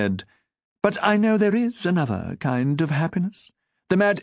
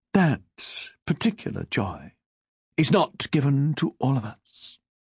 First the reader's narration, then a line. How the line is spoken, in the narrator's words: she said solemnly